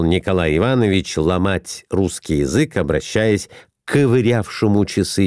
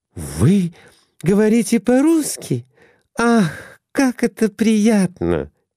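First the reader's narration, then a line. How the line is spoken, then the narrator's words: Exclamation. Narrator (Russian): воскликнула Глафира Семеновна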